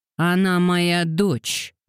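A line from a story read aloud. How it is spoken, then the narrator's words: Growled. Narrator (Russian): прорычал он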